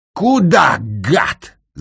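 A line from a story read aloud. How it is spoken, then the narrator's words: Yelled. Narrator (Russian): заорал князь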